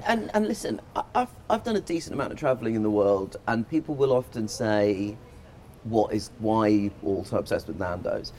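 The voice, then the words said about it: British accent. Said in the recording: “I'm not from the UK, if you haven't noticed by now. But ... the accent was a bit of a giveaway. It was a little bit of a giveaway.”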